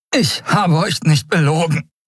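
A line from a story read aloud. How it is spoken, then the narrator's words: Panting. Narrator (German): keuchte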